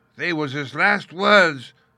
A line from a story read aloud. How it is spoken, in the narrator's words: moaned Morgan